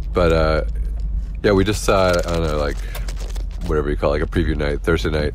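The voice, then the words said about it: Sick-sounding voice. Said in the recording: “I have sick voice right now. Mostly because I'm sick... I sound like a different person”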